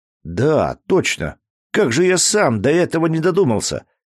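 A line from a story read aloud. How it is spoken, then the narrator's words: Exclaiming. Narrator (Russian): воскликнул Дмитрий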